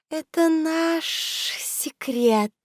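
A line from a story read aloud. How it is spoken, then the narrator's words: Hissing woman. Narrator (Russian): прошипела красотка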